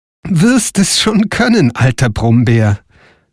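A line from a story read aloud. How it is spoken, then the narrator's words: Laughing reply. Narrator (German): antwortete Frau Holle lachend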